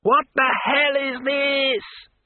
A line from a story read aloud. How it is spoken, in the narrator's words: he shouted